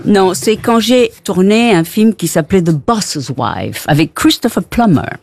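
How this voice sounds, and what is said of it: Foreign accent in French. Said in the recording (French): “j'adore ton accent”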